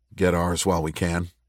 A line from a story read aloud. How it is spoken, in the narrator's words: Richard said quietly